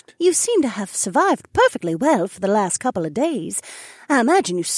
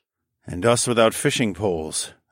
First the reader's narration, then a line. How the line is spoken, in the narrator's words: I grumbled